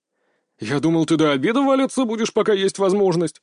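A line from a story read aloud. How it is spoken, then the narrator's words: Chuckling. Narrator (Russian): хохотнул он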